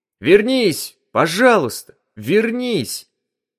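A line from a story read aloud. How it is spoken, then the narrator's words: Loud shout. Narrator (Russian): громко крикнул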